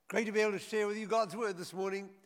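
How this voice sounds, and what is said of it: Speaks with a foreign accent. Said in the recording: “Yes, I do have an accent.”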